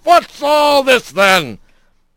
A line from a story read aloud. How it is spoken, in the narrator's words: a voice booming